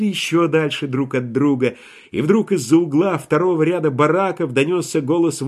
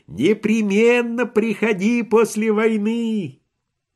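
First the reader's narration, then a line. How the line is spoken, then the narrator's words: Shouted. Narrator (Russian): Швейк закричал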